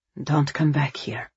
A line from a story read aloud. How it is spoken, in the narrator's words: he murmured